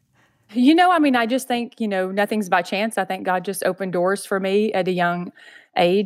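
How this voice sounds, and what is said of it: Southern drawl. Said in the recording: “you can tell with my Southern drawl”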